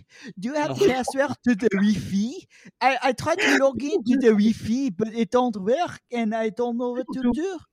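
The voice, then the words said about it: Put-on French accent. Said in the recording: “like a French person say Wi-Fi ... people do love a French accent”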